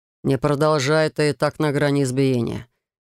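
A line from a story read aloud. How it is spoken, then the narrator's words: Grim. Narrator (Russian): мрачно заметил Райт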